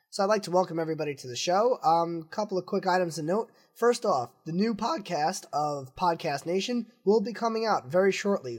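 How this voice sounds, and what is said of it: Rough, strained voice that may cut out. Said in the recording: “I'm getting over a cold. You probably hear it in my voice ... My voice may cut in and out a little”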